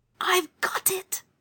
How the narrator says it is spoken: Anthea whispered

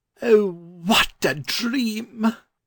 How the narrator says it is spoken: cried the learned gentleman

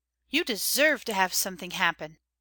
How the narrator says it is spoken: said Old Nurse

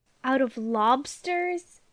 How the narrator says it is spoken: said Jane dreamily

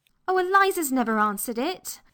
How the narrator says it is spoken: cried Anthea

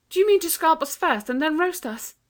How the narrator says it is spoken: asked Anthea desperately

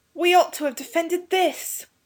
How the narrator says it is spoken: cried to the others

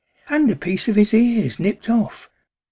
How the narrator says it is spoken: cried excitedly

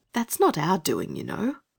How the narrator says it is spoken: said Anthea gently

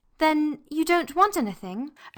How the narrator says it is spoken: Anthea asked earnestly and anxiously

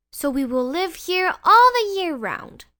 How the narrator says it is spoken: they cried

